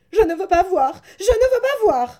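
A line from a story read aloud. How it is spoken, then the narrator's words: Shouted while fleeing. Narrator (French): s'écria Jacques en se sauvant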